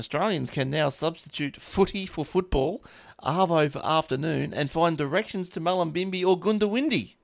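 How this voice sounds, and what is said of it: Australian accent with a twang. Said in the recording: “the Aussies, we have a twang in our voice”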